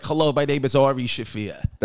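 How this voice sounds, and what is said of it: Attempted Jewish accent, sounds New York. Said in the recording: “do a Jewish accent ... But that's standard New York. That's not a real, like, that doesn't sound like an Israeli.”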